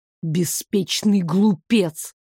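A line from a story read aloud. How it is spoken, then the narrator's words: Hiss through teeth. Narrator (Russian): сквозь зубы прошипел Дамиан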